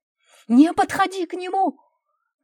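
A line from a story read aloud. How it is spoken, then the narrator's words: Shout. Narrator (Russian): крикнул Антон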